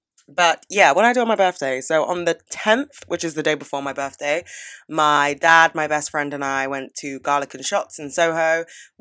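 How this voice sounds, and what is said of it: Voice deeper than usual. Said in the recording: “lost my voice temporarily, which is why I think it's still kind of deeper than it normally would be. I don't know if it's getting better.”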